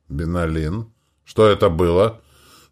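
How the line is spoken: Muffled question. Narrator (Russian): спросил он глухо

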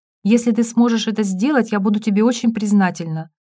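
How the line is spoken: Plain. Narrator (Russian): сказала тетя Оля

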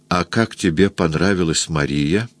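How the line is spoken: Soft smiling question, altered voice. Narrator (Russian): улыбаясь, спросила тихо, изменившимся голосом

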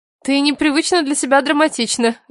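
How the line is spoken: Laughing. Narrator (Russian): рассмеялась я

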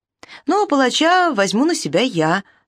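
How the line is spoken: Plain. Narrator (Russian): сказал Дараявуш

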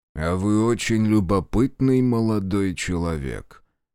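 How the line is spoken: Drawling. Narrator (Russian): протянул он

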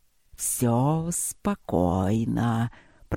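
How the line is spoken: Purring drawl. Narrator (Russian): протянул гепард мурчаще

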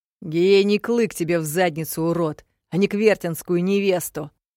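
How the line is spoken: Barked. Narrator (Russian): рявкнул Аспид

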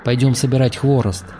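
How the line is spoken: Plain. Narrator (Russian): ответил Таргитай

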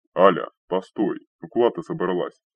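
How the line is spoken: Alarmed deep bass. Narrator (Russian): встревожно забасил голос Рикара

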